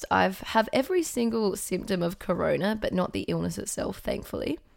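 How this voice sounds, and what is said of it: Croaky, hoarse voice. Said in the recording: “my very croaky voice. I lost my voice yesterday.”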